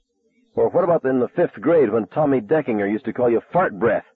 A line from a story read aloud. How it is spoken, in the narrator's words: asked, my voice rising